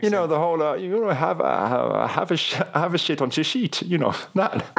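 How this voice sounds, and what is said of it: Put-on Dutch accent. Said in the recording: “Let me hear your Dutch accent. ... let's hear it. You're an actor. Let's hear your Dutch accent. ... I'm not going to mock their accent”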